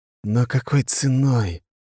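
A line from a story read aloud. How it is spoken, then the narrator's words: Sighing. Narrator (Russian): парень вздохнул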